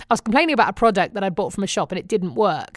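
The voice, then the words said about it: British accent. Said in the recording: “Can I just say, I love your accent? ... Come on, I'm still British. ... I really love your voice?”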